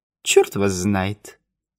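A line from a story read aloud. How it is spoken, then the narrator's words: Laughing. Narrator (Russian): Вревский рассмеялся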